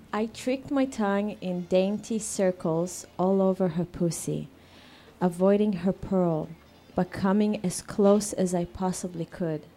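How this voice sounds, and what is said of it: Speaks with an accent. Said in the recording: “Sorry about my accent. ... We love your accent.”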